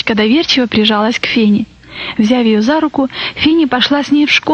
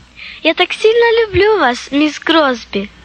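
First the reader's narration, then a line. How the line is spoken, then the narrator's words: Exclaimed. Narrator (Russian): воскликнула Сара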